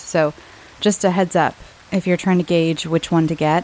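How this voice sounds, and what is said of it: Rough sick-sounding voice. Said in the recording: “my voice is still a little gross. Um, I'm still not 100%. I'm feeling all better, but my voice is just not 100% ... apologies for if I sound, you know, unpleasant ... my sick voice”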